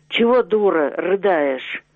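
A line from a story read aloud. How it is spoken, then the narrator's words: Menacing. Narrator (Russian): Синявский сказал грозно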